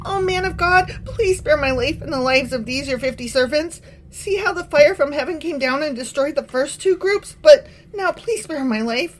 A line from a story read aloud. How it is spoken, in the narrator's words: He pleaded